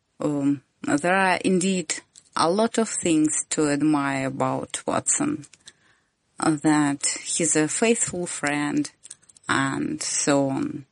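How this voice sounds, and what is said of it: Noticeable accent. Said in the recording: “my disgusting accent”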